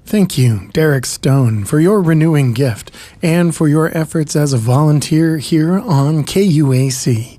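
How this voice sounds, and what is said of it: Mock NPR radio announcer voice. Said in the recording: “my NPR voice”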